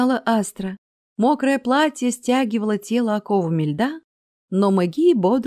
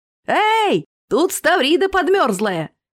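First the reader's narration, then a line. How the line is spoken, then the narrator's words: Shout from below. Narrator (Russian): крикнул кто-то снизу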